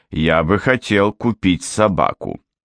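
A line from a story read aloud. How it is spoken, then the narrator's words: Plain. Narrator (Russian): ответил Суне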